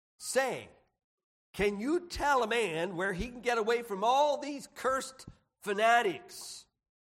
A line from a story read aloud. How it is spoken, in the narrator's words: he exclaimed